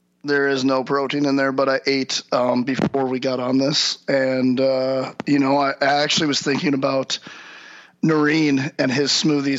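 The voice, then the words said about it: Hoarse, worn-out voice. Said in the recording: “my voice is gone. My voice is gone from yelling and motivating all day, every day.”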